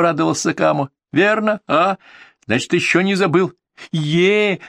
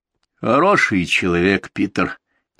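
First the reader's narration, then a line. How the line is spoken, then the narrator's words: Quiet. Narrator (Russian): тихо сказал Мангвайло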